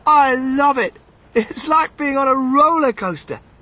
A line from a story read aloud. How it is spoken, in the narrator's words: Charlie shouted